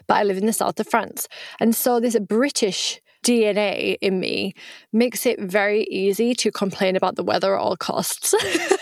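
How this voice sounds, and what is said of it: British accent. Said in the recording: “I am British, right? That's where I was born, as you can tell by my accent.”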